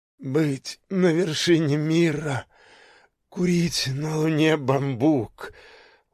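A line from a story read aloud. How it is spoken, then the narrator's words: Barely audible wheeze. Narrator (Russian): он уже едва хрипел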